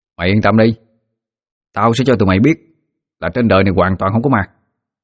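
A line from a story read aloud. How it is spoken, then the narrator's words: Cocky, firm reply. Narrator (Vietnamese): Tôi vênh mặt đáp bằng giọng chắc nịch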